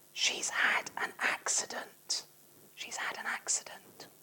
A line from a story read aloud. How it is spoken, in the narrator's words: Ferguson whispered